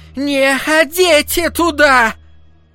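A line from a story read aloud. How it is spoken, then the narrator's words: Sudden rusty old woman's shout. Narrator (Russian): Неожиданно своим ржавым, но сильным старческим голосом закричала миссис Кармоди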